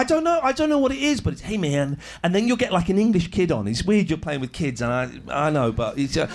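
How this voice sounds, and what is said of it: Usual voice. Nothing is said of it.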